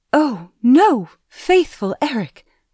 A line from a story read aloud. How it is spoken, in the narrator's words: cried the maiden